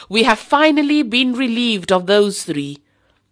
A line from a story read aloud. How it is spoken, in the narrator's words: Abu Sufyan, who called out jubilantly